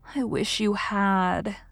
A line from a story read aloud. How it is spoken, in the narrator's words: sighed Anne